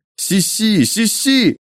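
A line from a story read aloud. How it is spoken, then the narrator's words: Anguished cry. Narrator (Russian): горестно выкрикнул кто-то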